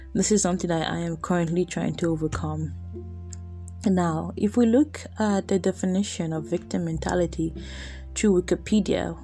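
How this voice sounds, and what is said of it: Flat, monotone low-energy voice. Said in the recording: “I sound so monotone today, I really don't have energy.”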